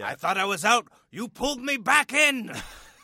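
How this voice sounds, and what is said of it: Impression of a mobster film character. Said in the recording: “That's a really good impression. ... That's the Sopranos from The Godfather. ... a matryoshka of impressions”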